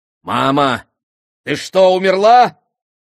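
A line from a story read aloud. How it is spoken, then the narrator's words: Shout. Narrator (Russian): крикнул Эдди-идиот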